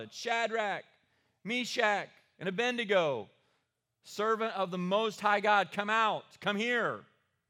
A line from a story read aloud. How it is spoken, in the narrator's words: Nebuchadnezzar shouted